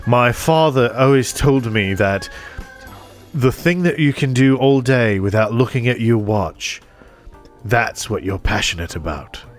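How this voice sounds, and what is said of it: Imitated thick British accent. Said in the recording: “in his little thick British accent”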